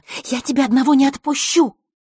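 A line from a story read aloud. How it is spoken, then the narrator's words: Hissing. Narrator (Russian): прошипел знакомый голос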